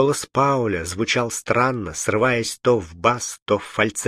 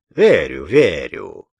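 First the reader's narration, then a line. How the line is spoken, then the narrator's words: Mocking, through teeth. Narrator (Russian): насмешливо процедил Василь Витренко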